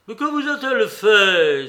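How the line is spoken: Exclaiming. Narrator (French): s'écria Mitia

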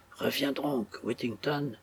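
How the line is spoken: Grieving captain murmuring. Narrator (French): murmura le désolé capitaine

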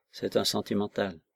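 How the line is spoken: Soft, deferential murmur. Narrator (French): murmura Decoux d'un ton de déférence polie et caressante

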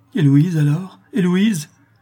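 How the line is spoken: Frantic exclamation. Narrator (French): s'écria Morel, presque égaré

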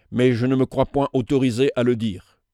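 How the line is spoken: Firm voice. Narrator (French): Maston d'une voix ferme

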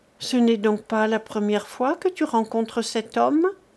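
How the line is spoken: Trembling voice. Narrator (French): dit Millette d'une voix tremblante

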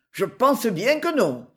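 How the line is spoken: Sneering laugh. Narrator (French): ricana

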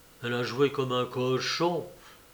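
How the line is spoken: Low voice. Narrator (French): répondit-il à voix basse

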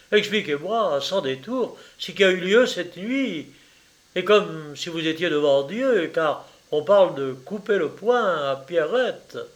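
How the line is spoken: Lawyer exclaiming. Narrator (French): s'écria l'avocat

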